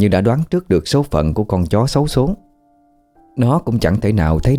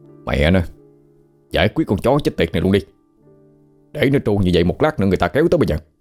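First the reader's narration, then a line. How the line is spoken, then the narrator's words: Cursing, then shouting. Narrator (Vietnamese): Tài chửi thề một tiếng rồi quát lên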